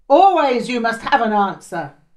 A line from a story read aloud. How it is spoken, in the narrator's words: he shouted